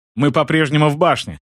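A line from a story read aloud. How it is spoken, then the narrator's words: Exclaiming. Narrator (Russian): воскликнул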